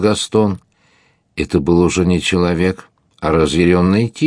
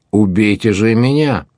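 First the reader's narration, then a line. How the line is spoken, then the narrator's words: Sharp shout. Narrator (Russian): крикнул он резко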